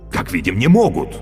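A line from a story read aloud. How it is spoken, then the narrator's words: Exclaimed. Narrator (Russian): воскликнул Каще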